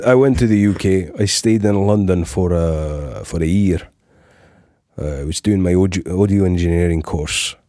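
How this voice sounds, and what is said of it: Adopted Scottish accent. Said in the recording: “I don't know how I started doing this accent ... you've never lived in Scotland”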